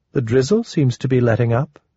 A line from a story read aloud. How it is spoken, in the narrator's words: In a casual tone, Soulcatcher observed